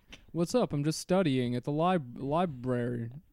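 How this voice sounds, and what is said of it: Put-on deeper voice. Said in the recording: “my voice got deeper because my body's changing”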